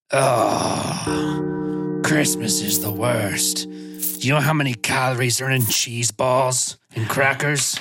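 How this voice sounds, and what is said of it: Grumpy Scrooge-like character voice. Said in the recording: “my best Trevenezer Scrooge impression... You could lean into the grumpiness maybe a little more.”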